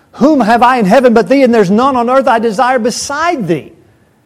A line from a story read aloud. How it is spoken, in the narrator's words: as Asaph cried